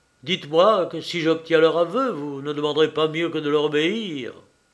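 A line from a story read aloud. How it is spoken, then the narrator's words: Exclaiming. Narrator (French): s'écria Canalis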